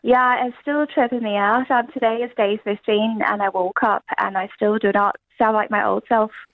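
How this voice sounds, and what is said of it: Irish-sounding accent. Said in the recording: “You seriously are still talking in an Irish accent.”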